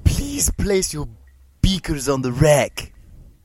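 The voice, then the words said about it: Stewie Griffin cartoon character voice. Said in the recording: “Is it Stewie Griffin? ... It is, yes.”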